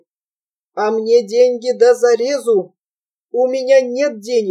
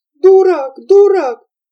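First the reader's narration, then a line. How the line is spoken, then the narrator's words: Shrill sobbing, trembling girl. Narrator (Russian): Плача, пуская пузыри, взвизгивала вся содрогаясь Верочка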